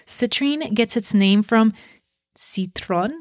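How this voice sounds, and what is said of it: Bad French accent on one word. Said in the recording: “sorry, bad French accent there”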